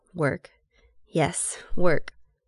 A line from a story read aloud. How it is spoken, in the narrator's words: Still only half focused, George mutters